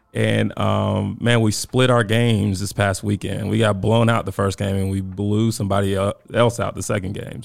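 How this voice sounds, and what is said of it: Raspy, strained voice. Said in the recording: “my voice is a little raspy... my voice hadn't 100% recovered... my voice is really just trash”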